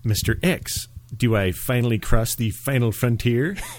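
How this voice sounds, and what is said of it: Impression of the Comic Book Guy cartoon character. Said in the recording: “my impression of the comic book guy”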